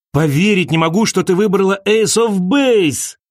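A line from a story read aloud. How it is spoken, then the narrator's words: Shout. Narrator (Russian): крикнул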